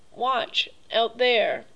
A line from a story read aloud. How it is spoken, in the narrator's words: exclaimed the general